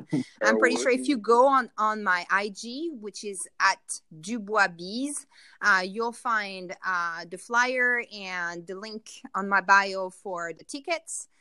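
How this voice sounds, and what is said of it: French accent. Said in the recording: “Sorry for my accent, my French accent.”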